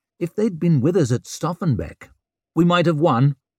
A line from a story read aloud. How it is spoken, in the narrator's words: snapped Leo